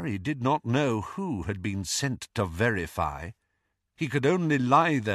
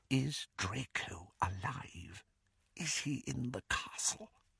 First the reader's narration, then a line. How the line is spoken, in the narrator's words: The whisper was barely audible